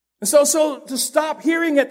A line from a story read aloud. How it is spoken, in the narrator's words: they yell